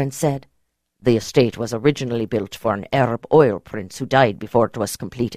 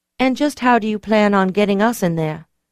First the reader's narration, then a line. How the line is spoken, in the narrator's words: I asked dryly